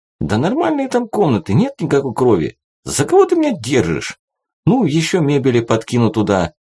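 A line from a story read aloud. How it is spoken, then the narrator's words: Uncertain. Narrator (Russian): как-то неуверенно сказал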